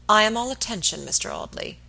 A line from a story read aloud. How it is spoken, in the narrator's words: he said coldly